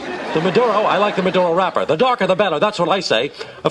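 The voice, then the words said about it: Blustery George Steinbrenner impression. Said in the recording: “as the voice of George Steinbrenner ... it's not quite your speaking voice. You did some stuff there with that ... I was doing an impression ... he's a big blustery guy. He kind of talks like that.”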